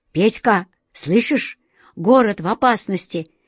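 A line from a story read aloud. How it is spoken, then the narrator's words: Boy's joyful exclamation. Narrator (Russian): радостно воскликнул один из мальчишек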